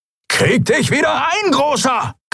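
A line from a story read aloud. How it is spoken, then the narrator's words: Shrieking. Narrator (German): kreischte Halbhorn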